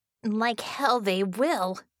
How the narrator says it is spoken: Bella snarled

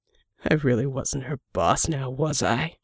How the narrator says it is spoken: Jack chuckled

